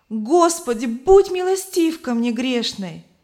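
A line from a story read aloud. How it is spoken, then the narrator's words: Loud exclamation in sleep. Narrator (Russian): Она громко воскликнула во сне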